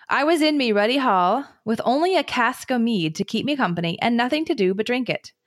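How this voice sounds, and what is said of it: Reading in dialect voice. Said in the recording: “I'm not going to do accents, but like read dialect.”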